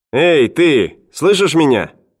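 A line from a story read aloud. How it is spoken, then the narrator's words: Shouting young man. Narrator (Russian): крикнул парень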